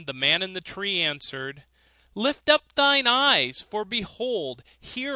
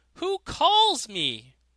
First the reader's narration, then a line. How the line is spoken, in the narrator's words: The student cried out